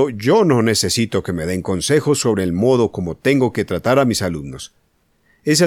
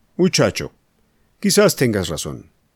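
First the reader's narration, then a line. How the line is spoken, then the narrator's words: Said dryly. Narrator (Spanish): dijo secamente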